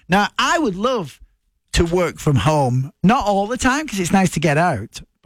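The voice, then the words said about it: Strong regional accent. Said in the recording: “I've got an accent, and that's difficult to understand”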